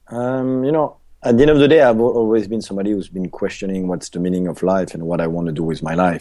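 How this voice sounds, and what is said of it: Swiss accent. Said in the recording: “beautiful accent, by the way, Swiss accent”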